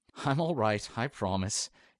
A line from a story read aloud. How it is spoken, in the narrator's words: Harry added in a little chuckle to attempt lightening the mood